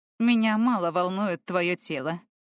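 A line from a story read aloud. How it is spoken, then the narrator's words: Stranger's scoff. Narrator (Russian): хмыкнул незнакомец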